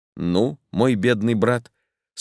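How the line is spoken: Calm. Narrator (Russian): спокойно проговорил Дик

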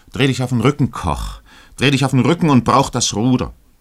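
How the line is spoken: Captain calling out. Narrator (German): rief der Kapitän ihm zu

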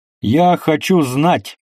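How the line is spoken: Shout. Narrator (Russian): крикнул им Петр Алексеевич

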